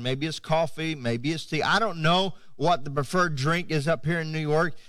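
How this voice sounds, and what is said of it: Florida Southern American accent. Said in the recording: “I'm from Florida, if you haven't figured that out yet, with my accent. ... I speak like a Floridian”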